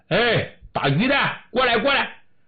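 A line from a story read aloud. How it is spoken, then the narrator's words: Hurried shout. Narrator (Chinese): 那伪军忙喊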